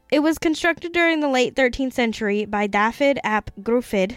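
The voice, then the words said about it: Slips into a put-on accent. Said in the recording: “I don't know where this accent is coming from.”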